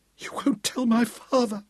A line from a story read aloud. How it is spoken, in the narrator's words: she pleaded